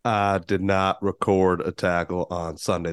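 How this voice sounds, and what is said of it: Imitates another person's voice. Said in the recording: “my best Bill Clinton impression”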